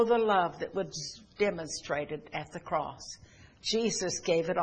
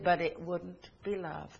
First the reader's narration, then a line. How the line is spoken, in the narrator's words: the Creator interrupted softly